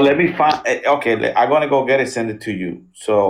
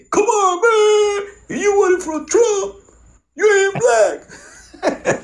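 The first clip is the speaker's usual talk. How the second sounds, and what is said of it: Imitates another person's voice, poorly. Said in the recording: “worst Biden impression”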